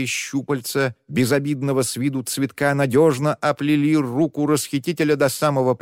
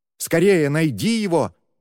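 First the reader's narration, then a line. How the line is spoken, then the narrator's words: Exclaiming. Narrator (Russian): воскликнула она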